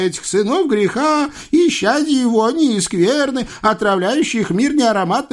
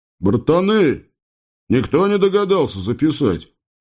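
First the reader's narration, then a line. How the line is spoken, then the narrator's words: Envious groaning lion. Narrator (Russian): завистливо простонал лев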